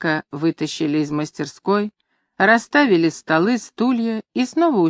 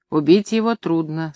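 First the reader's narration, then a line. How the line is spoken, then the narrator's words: Very calm, matter-of-fact. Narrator (Russian): сказал Ситанов очень спокойно, как говорят о деле хорошо знакомым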